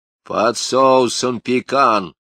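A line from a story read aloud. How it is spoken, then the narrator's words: Iron-hard voice. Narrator (Russian): железным голосом сказала Патрикеевна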